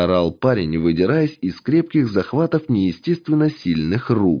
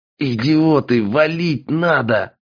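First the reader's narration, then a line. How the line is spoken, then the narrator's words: Hoarse rasp. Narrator (Russian): прохрипел Андрей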